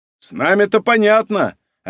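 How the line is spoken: Shout from crowd. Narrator (Russian): опять выкрикнул из толпы голос

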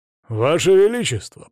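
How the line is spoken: Deep bass voice. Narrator (Russian): пробасил Видигор

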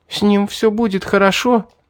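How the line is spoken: Sobbing question. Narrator (Russian): всхлипывая, спросила Мирра

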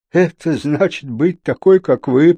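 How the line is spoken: Moaning. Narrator (Russian): простонал он

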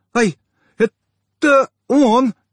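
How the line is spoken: Frightened gasp. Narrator (Russian): испуганно выдохнула

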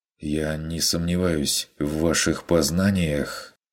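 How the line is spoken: Suddenly hoarse voice. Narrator (Russian): внезапно охрипше продолжил Хагнер

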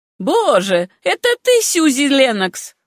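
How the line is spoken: Exclaimed. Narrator (Russian): воскликнула она

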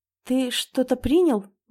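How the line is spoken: Muttered. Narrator (Russian): бормочу

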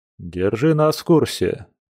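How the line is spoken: Calm reply. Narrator (Russian): спокойно ответил Дима

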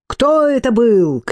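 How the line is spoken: Sudden angry shout. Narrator (Russian): крикнул Титус, ибо гнев внезапно вскипел в нем

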